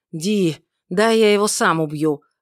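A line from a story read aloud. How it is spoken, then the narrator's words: Growled. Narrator (Russian): рыкнул тот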